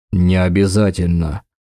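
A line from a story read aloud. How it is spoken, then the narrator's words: Dismissive grunt. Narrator (Russian): хмыкнул Дакар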